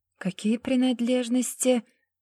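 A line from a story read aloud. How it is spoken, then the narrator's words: Pained words through teeth. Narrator (Russian): стиснув зубы от боли, процедила Даша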